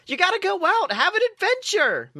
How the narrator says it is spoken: Mabel exclaimed

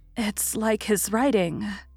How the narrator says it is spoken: faltered Meg

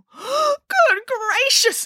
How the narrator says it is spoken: exclaimed Boris

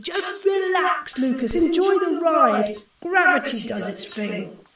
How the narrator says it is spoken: another version of Teddy, who shouted

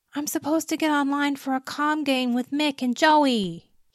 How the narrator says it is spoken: pleaded

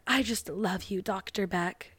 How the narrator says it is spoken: she weirdly whispers in his ear

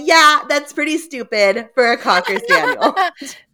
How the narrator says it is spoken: she laughed and said

